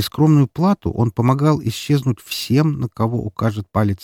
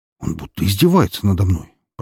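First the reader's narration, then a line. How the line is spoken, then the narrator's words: Frustrated mutter. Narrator (Russian): пробормотал перепробовавший все известные ему способы взлома хакер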